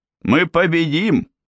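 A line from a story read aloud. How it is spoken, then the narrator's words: Shouted. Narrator (Russian): крикнул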